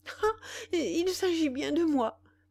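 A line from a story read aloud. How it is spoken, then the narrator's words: Impatient exclamation. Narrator (French): s'écria Valentine avec impatience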